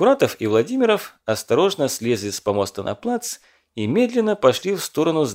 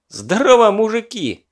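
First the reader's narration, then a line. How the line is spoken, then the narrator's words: Cheerful shout. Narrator (Russian): весело закричал Лёва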